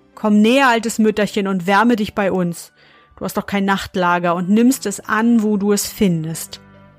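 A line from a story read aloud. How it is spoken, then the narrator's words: Calling out. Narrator (German): rief ihr zu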